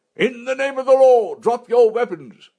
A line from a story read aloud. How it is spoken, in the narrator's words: Freddy's voice was drowned by startled cries and angry shouts